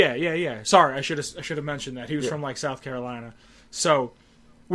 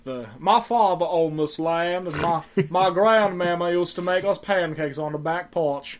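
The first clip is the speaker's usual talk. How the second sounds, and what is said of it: Put-on Southern US accent. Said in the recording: “he did a worse Southern accent than me”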